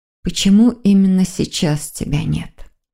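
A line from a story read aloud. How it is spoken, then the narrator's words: Barely audible whisper. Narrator (Russian): еле слышно прошептала Маргарита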